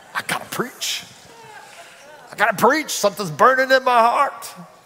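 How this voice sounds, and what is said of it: Put-on Southern accent. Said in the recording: “Say it with a southern accent if you can.”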